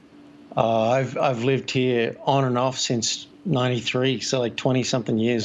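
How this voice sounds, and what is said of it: Mixed Australian-American accent. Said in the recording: “The accent is quite international. It's not quite Australian, but not quite American ... your accent, that kind of cross between the Australian and the American”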